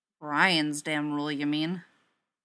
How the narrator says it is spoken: Vince grumbles something under his breath that sounds a lot like

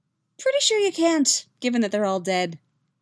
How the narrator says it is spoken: Yaskir says cheerfully

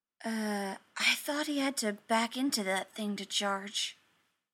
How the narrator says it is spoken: he whispered to Steve

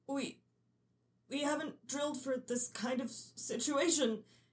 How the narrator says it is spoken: he stammers

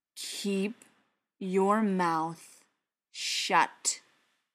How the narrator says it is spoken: Briar said, speaking slowly and emphasizing every word

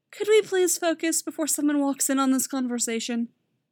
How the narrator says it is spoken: Robin asks wearily

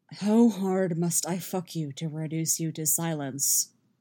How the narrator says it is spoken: Geralt growls

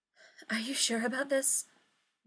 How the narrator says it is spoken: asks, panting

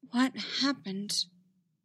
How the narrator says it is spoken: Ahsoka whispered through her fingers

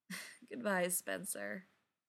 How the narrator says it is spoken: Ryan said with a laugh

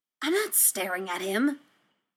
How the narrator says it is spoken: Stiles hisses, affronted

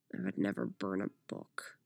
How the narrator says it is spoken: Jay grumbled under his breath

